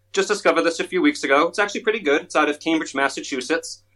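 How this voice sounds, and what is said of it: Rhode Island accent. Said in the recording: “That's a nice accent. That's a Rhode Island accent? ... I think it's a Rhode Island accent, because that's a little bit different than a Massachusetts accent or a Maine accent.”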